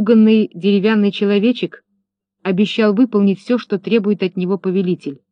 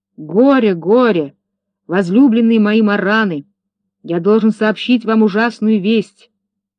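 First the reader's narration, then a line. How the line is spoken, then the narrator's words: Booming voice. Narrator (Russian): Урфин начал зычным голосом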